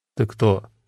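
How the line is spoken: Gruff mumble. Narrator (Russian): буркнул один из пришедших

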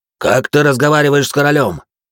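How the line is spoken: Barking. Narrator (Russian): рявкнул на него Людовик

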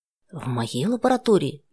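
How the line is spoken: Frightened mother's question. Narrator (Russian): испуганно переспросила мать

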